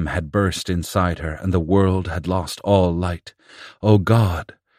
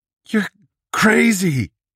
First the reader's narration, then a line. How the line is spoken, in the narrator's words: Rennert sobbed